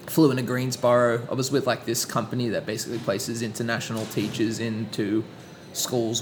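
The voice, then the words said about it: Speaks with a foreign accent. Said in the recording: “let's make use of this accent a little bit ... using my accent to my”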